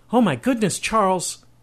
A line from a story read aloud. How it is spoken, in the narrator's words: cried a distraught Catherine